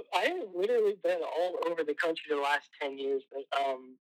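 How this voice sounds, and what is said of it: Slight Southern US accent. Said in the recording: “you have a little like slight accent”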